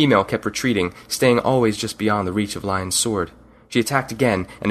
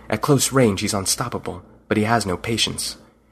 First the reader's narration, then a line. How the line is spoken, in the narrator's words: He whispered